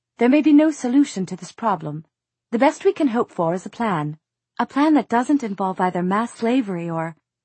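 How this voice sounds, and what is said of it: Clipped accent. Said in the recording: “said Nazreen in her clipped accent”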